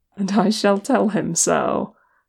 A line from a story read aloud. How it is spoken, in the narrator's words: Legolas said, chuckling